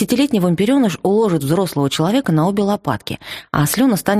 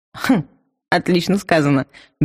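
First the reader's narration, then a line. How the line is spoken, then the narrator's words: Good-natured chuckle. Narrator (Russian): беззлобно хохотнул вампир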